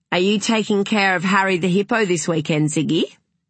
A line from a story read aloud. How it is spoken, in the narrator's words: She said brightly